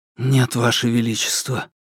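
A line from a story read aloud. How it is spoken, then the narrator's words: Barely above a whisper. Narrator (Russian): голос принца был не громче шепота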